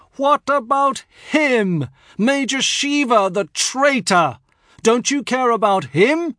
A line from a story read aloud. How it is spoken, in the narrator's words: At the top of my voice, I shriek